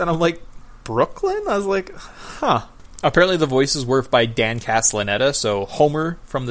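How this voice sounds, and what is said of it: Usual voice. Nothing is said of it.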